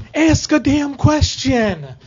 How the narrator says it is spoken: wanted to yell

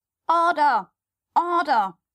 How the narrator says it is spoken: cried out a cracker

